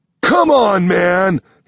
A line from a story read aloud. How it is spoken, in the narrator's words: He yells down at me